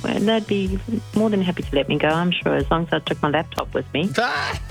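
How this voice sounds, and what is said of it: Whispering. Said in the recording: “your voice indicates to me that you're working ... you're whispering”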